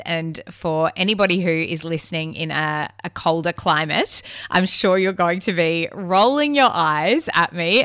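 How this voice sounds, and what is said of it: Slightly nasal voice. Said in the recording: “you can probably hear my voice is still just that little bit nasally”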